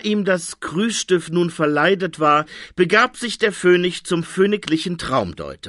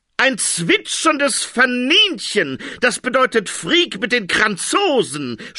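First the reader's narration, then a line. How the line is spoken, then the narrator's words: Shouted. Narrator (German): schrie der Traumdeuter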